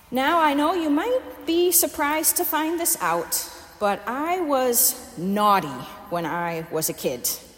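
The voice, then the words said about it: Midwest American accent. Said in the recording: “my Midwest American accent”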